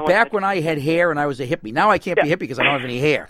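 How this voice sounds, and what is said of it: Boston accent. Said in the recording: “I missed the accent. I went to school in Boston”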